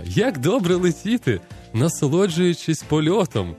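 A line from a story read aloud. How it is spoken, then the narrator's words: Cheerful speech. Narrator (Ukrainian): весело сказала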